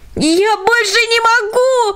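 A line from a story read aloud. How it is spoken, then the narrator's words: Terrified wail. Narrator (Russian): завопил Джек, объятый смертельным ужасом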